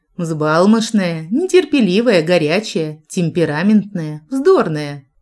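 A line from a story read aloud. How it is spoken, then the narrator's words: Laughing. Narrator (Russian): засмеялась, Дель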